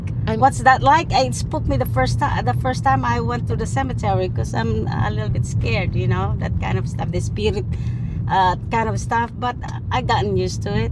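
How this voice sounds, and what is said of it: Noticeable foreign accent. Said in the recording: “despite the accent.”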